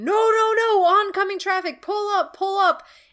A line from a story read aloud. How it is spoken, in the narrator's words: Marco starts screaming